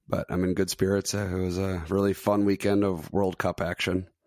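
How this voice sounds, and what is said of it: Strained, unwell-sounding voice. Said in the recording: “I'm doing better than my voice is, unfortunately.”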